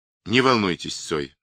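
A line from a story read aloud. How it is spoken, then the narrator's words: Calm remark, commissar. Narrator (Russian): спокойно заметил комиссар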